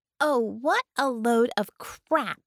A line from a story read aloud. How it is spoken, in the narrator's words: she snapped